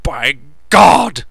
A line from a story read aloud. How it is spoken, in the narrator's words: He shouted